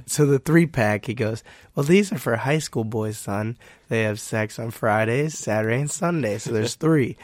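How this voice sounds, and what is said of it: Hoarse, strained, nearly lost voice. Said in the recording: “My voice is too gone. ... My voice hurts.”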